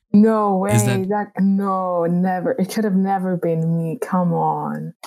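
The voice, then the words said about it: Sarcastic voice. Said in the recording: “put on your sarcastic voice”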